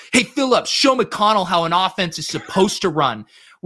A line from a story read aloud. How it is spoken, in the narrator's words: the coach is yelling at McConnell, he goes